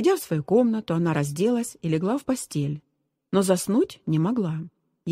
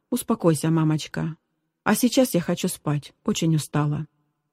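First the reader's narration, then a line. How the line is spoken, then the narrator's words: Said softly. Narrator (Russian): мягко сказала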